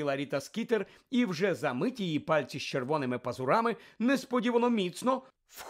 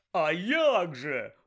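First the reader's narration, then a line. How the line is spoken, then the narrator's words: Exclamation. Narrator (Ukrainian): вигукнув Бегмен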